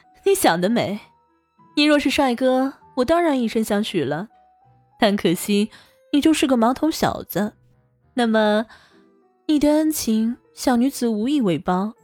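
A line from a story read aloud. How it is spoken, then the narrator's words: Sly laughing speech. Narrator (Chinese): 王峰邪笑了起来，忍不住说道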